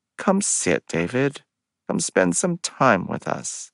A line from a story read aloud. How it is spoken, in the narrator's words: Aubrey added gently